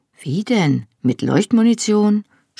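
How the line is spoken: Sarcastic suggestion. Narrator (German): schlug sarkastisch vor

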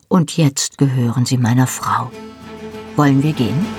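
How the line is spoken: Calm. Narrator (German): sagte Jamie ruhig

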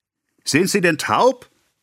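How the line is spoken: Vehement shout. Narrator (German): rief Monsieur Tuvache heftig

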